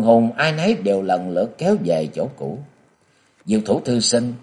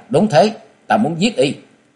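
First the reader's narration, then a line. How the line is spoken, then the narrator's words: Angry interjection. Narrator (Vietnamese): Châu Thanh tức giận chen lời vào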